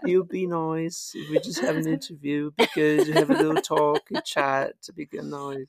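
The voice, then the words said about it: Imitates another person's voice, Welsh-sounding. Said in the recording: “that's not how I talk ... I don't talk like that ... I'm not Welsh ... a professional accent person”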